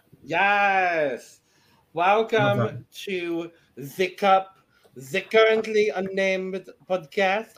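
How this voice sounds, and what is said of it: Poor attempted French Canadian accent. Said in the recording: “I don't know what this accent is... Are you trying to do a Belgian accent?... No. I was trying to do French Canadian.”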